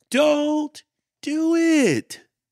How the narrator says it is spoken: they screamed

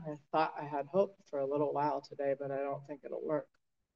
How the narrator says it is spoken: I said under my breath

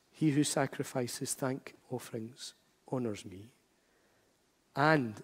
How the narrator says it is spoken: it says

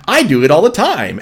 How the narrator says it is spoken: Ash said happily

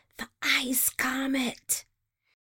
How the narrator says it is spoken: In unison, they all whisper

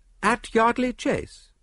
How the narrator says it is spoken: I cried, interested

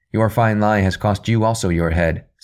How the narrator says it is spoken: said Daniel

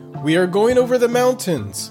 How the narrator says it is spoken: he cried

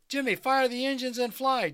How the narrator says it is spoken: Derek yelled

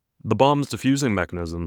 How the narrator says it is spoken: says the Jackal

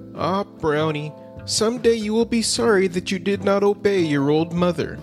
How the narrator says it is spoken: His mother often found fault with him for this and would shake her head sadly and say

